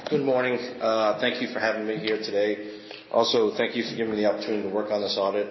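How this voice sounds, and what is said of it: Sick-sounding voice with a cold. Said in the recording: “apologize for my voice. ... they've given me a cold”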